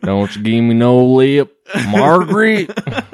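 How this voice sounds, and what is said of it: Put-on country twang. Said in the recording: “Going country ... you got to have that twang.”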